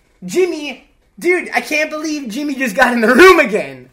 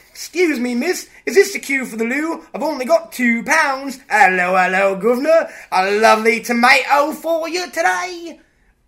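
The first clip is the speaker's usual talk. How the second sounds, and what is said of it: Imitated Cockney accent. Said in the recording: “Cockney accent ... let me try to imitate it. I do a wicked Jimmy Moore”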